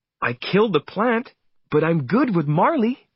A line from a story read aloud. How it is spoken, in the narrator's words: Jenny said happily